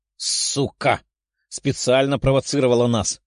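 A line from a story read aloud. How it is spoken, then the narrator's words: Furious growl. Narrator (Russian): прорычала взбешенная Даша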